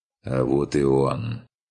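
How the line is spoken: Somewhat weary. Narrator (Russian): сообщил обер-инквизитор, как Курту показалось, несколько устало

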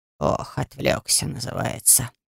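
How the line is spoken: Displeased inner grumble. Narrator (Russian): пробурчал в голове недовольный голос

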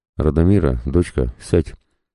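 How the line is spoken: Quiet request. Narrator (Russian): негромко попросила она

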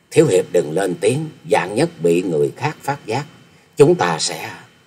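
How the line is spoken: Young girl, hushed. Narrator (Vietnamese): Thiếu nữ khẽ giọng nói

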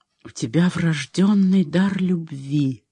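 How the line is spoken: Quiet, confiding. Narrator (Russian): тихо, словно по секрету сказал он

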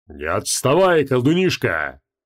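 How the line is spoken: Barked. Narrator (Russian): гаркнул Лот Езикруар

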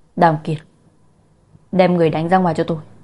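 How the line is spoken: Cold. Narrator (Vietnamese): Lạc Thiên Ngưng lạnh lùng

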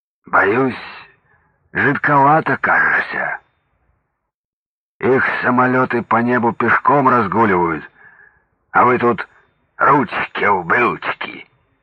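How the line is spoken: Old man sighing. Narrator (Russian): Старик снова вздохнул

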